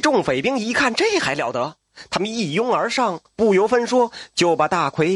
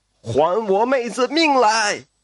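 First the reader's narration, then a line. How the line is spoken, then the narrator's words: Shout. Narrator (Chinese): 大奎喊了一声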